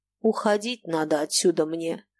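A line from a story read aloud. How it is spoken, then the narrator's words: Grumbling. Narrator (Russian): ворчал Баринов, поднимаясь в гору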